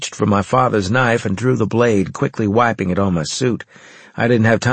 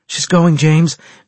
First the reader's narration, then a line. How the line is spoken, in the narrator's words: Natasha said urgently